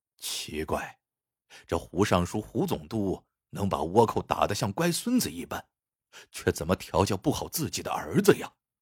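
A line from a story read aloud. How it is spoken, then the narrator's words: Moderate, pointedly audible. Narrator (Chinese): 声音不大不小，恰好让对方听见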